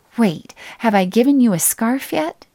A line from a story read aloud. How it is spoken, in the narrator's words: she asked, her eyes eagerly searching my face